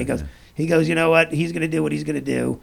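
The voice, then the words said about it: Imitates another person's voice. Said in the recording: “great Bill Hicks impersonation ... That's very good.”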